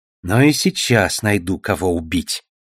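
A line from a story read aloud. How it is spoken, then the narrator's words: Mutter. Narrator (Russian): пробормотала Душелов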